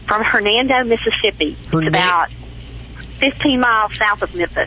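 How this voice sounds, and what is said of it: Southern drawl. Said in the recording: “I just love your southern drawl.”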